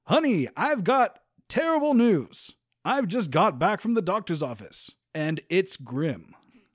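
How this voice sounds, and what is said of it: Exaggerated radio announcer voice. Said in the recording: “he's always in radio voice.”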